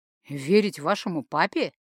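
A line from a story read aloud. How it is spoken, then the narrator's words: Ironic snort. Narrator (Russian): иронически хмыкнул Инор Брайнер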